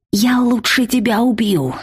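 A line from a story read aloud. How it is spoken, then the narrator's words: Through gritted teeth. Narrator (Russian): сквозь зубы процедила я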